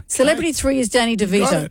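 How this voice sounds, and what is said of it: Dramatic game-show host voice. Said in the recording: “I've got to keep my dramatic voice on as we continue going.”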